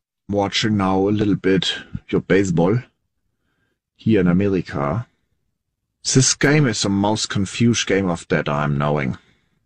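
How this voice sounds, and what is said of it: German accent. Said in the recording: “Is that the German accent? ... Yeah.”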